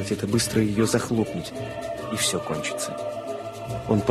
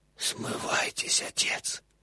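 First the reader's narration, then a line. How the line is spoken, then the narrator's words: Barely audible whisper in English. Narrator (Russian): Еле слышный голос прошептал по-английски в ухо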